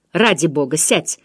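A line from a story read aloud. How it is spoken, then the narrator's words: Irritated. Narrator (Russian): раздраженно сказал Вернон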